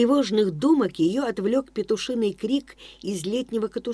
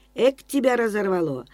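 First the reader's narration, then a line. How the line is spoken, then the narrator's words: Startled grumble. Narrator (Russian): вздрогнув от неожиданности, проворчала хозяйка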